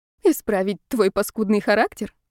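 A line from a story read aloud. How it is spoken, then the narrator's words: Giggling. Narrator (Russian): хихикнула Ева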